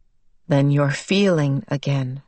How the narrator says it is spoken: her father said quietly

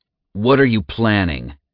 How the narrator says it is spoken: Zack growled with anger

